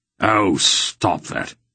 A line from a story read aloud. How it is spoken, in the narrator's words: he said irritably